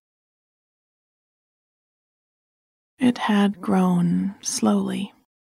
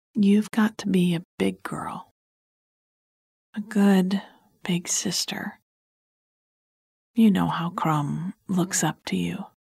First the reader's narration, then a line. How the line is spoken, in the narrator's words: said, leaning down to talk quietly